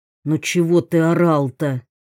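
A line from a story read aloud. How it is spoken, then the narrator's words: Displeased grumble. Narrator (Russian): недовольно буркнул охранник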